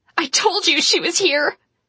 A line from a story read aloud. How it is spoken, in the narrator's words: Astrid squealed